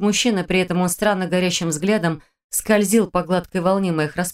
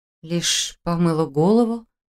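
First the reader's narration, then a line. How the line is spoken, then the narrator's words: Confused mutter. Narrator (Russian): Растерянно пробормотала я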